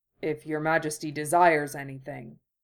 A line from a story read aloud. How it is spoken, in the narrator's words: he said, and she could feel the rumble in his chest as he spoke